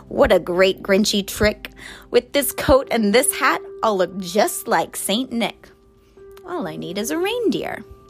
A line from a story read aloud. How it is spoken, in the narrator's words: chuckled and clucked